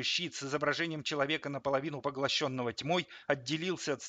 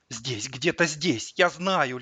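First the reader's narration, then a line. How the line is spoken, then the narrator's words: Feverish whisper. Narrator (Russian): лихорадочно шептал Зимин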